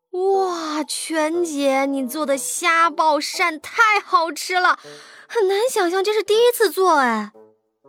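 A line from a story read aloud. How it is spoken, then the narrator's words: Sincere exclamation. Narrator (Chinese): 穆小由衷感叹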